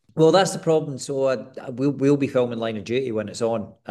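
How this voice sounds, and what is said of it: Scottish accent. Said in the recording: “your natural Scottish accent”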